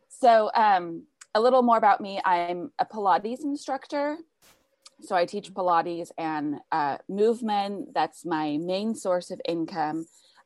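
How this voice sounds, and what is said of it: American accent. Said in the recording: “the American accent is quite cool”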